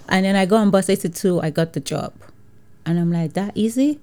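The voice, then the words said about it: Nigerian-accented English. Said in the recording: “I speak English, but I have Nigerian accent”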